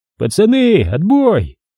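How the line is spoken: Shout from below. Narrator (Russian): С нижней лестничной площадки крикнули

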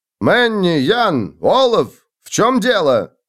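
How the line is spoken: Bark. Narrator (Russian): рявкнул Отто

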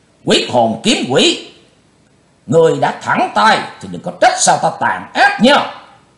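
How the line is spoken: Old man shouting loudly. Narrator (Vietnamese): Lão cục tài lúc này quát lớn

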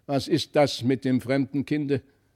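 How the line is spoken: Calling out. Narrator (German): rief der Magister

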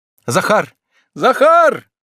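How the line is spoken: Prolonged calling shout. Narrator (Russian): долго кричал он

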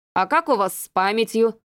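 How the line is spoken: Stern inquiry. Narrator (Russian): строго осведомился Леонид Петрович

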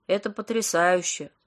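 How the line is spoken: Gloomy flat reply. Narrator (Russian): уныло отозвался Паша

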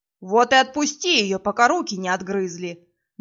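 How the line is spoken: Werewolves growling in unison. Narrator (Russian): Дружно рыкнули оборотни

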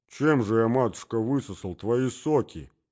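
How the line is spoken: Mumbled by a husband. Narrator (Russian): промямлил супруг

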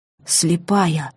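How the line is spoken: Breathy exhale. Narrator (Russian): выдохнул он

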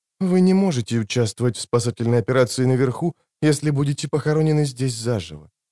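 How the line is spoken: Soft, apologetic, girl. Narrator (Russian): мягко сказала девушка, будто извиняясь за что-то

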